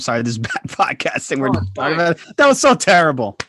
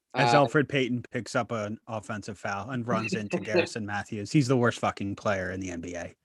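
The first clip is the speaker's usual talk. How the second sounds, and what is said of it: Imitates another person's voice. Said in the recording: “I'm doing my Schwinn impression.”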